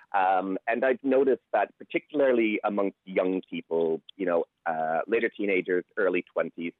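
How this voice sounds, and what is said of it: Canadian accent. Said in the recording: “you can probably tell from my accent, I'm not Irish, I'm Canadian, but I've been living here 25 years.”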